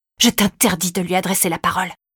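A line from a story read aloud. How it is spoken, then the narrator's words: Hissing through teeth. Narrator (French): siffla-t-elle entre ses dents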